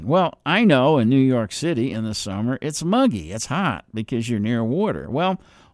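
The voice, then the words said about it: Slight New Jersey accent. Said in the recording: “you might catch a little accent. It's a New Jersey accent.”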